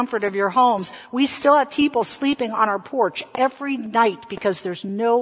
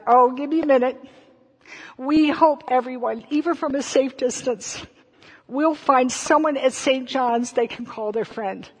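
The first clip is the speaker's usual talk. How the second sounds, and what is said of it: Emotional, choked-up speech. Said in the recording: “I'm so sorry, I'm getting emotional because I miss y'all so much”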